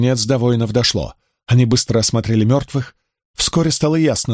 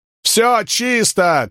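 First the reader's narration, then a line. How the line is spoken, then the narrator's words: Shouted in broken Latin. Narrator (Russian): крикнул он на ломаной латыни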